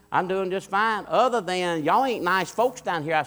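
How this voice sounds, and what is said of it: Imitated Louisiana accent. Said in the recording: “She had that accent, Louisiana.”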